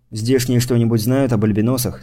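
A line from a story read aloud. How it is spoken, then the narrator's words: Plain question. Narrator (Russian): спросил я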